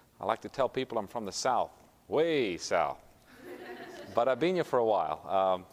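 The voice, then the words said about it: Slight South African accent. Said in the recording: “Originally, I'm from South Africa, so if you pick up a little bit of an accent, that's what it is.”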